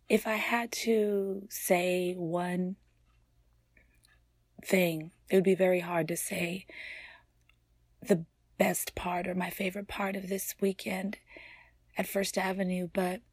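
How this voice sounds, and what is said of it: Strained, worn-out voice. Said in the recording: “Excuse my voice... screaming my head off, as I usually do, but even more so”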